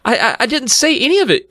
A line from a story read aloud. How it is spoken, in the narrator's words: Chris stammered